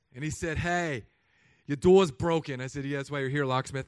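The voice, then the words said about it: Bad put-on New York accent. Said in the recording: “this accent was so bad in the first service, don't ever do it again. But he was from New York.”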